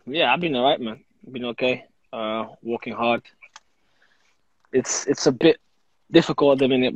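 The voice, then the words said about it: South London-tinged accent. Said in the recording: “you're sounding more and more like a South Londoner ... Your accent's going”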